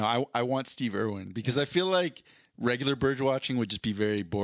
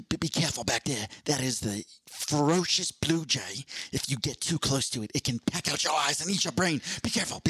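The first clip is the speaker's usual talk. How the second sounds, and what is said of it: Imitated Australian accent. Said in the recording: “I'm trying to think if I can even do a Steve Irwin accent. Probably not, but I'm going to try.”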